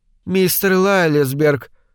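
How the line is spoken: Dry reply. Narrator (Russian): сухо ответила Рэйчел

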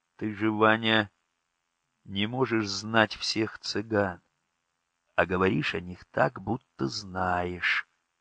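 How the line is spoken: Quiet. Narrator (Russian): тихо сказала Настя

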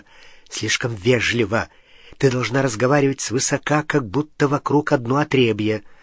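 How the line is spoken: Whisper in the ear. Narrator (Russian): Гарри зашептал ей в ухо

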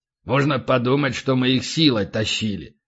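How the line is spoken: Grumbling. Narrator (Russian): проворчал полубой

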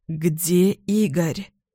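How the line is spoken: Hoarse question. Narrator (Russian): спрашиваю севшим голосом

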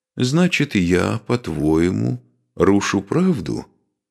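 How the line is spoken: Calm question. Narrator (Russian): спокойно спросил великий князь

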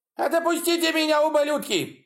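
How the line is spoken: Yelling. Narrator (Russian): вопил он

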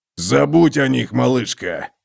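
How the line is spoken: Hoarse rasp. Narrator (Russian): прохрипел он

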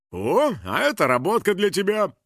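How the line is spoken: Pleased chuckle. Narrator (Russian): довольно хохотнул менеджер

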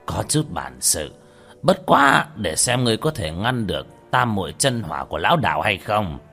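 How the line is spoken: Old man muttering. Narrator (Vietnamese): lão đạo sĩ lẩm bẩm

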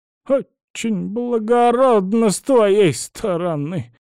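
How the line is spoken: Grumbled. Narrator (Russian): пробурчала Царёва

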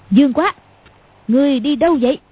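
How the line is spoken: Sudden loud shout. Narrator (Vietnamese): Cầu Thiên Xích đột nhiên quát to

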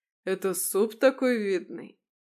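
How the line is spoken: Laughing at own joke. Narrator (Russian): расхохотался собственной шутке

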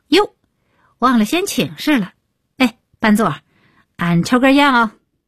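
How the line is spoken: Loud, quick. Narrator (Chinese): 李伟立刻高声道

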